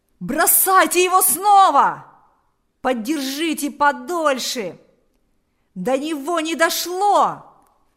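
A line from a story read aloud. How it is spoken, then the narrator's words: Several voices shouting. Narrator (Russian): Закричали несколько голосов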